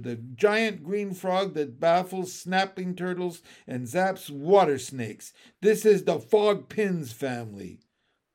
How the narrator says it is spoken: shouted

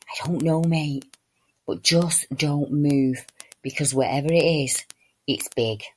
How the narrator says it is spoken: slowly whispered back

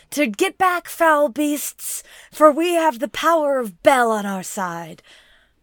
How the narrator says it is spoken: Bronwyn is very renewed in her religion, shouts into the wilderness

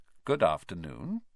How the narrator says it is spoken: he said smoothly

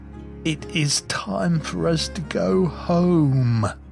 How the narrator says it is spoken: Juniper yawned and said to everyone present

